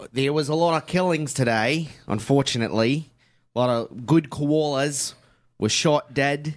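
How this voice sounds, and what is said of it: Put-on Australian accent. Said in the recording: “Stellar Australian accent... That's a great Australian accent... it's not great... It's okay.”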